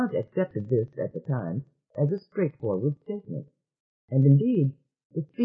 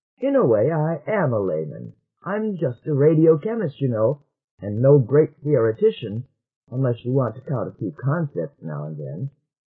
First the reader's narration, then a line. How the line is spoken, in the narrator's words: chuckled